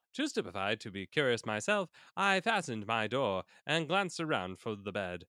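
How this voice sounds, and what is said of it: Put-on British accent. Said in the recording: “I gotta have to get my British accent back. There it is.”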